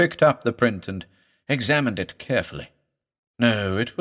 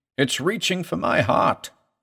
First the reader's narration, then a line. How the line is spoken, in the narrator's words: groaned